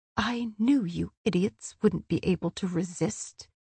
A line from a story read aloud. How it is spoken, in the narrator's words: Rhys murmured